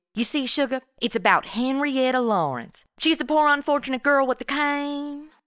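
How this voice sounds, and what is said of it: Put-on strong Southern accent. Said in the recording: “Whenever I'm around someone with a strong southern accent, I always start talking like them. I become some sort of accent chameleon.”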